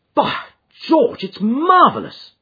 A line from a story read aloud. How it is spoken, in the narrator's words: cried Hopkins in an ecstasy of admiration